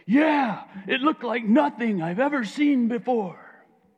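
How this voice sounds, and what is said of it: Put-on Jewish accent. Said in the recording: “That's my Jewish accent.”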